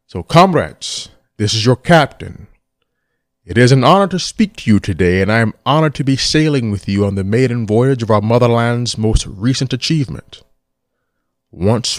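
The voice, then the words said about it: Imitates a famous actor's voice. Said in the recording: “I'm going to go full Connery ... our shitty impersonation ... hopefully this won't be too shitty”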